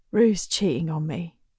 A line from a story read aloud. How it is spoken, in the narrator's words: says in almost a whisper